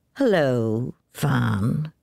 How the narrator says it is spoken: drawled Jim

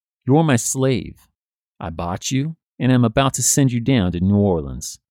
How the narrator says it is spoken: James coldly answers

